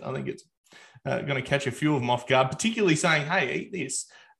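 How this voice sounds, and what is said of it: Broad Australian accent. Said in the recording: “broad Australian accent”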